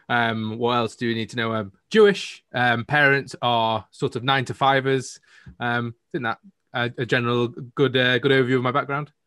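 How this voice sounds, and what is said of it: Northern English accent. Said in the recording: “I'm from the UK, as you might have been able to tell by my accent. I'm from the north of the UK in Manchester.”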